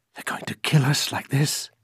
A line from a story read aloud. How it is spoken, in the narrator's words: Carlitos Lizaso, bewildered, can only whisper